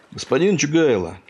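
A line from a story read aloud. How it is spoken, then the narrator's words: Shouted. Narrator (Russian): кричал Пахомыч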